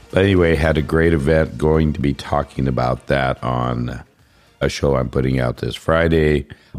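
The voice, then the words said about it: Rough, hoarse, low voice. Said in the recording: “you can probably tell my voice is a little rough. It was a lot rougher. In fact, it was gone ... sometimes I feel like it's even lower than it was before”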